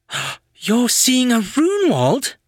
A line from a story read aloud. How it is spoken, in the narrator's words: Daisy gasped